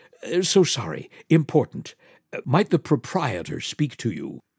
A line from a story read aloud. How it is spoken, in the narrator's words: A fifth waiter was whispering in his ear